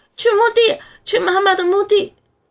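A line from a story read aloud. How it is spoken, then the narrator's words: Loud, resolute. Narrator (Chinese): 我目光一凛，对姨妈大声道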